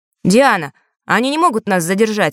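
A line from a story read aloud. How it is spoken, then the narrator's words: Plain. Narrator (Russian): спросил Фэш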